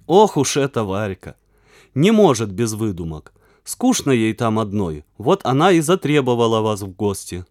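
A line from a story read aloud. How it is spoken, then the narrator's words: Plain. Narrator (Russian): сказал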